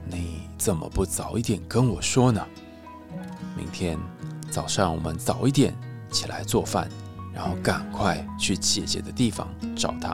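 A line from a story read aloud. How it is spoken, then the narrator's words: Gentle, tender. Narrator (Chinese): 国王温柔的告诉谢春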